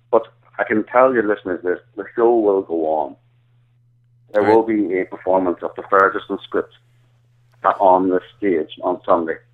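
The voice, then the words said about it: Irish accent. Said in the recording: “my indecipherable Irish accent ... you don't exactly sound like you're from Ferguson, Missouri”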